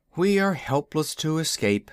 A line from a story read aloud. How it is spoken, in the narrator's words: sighed the wizard